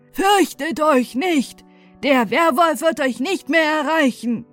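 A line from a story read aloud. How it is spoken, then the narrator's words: Guard calling loudly. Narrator (German): Der Wächter rief ihnen mit lauter Stimme entgegen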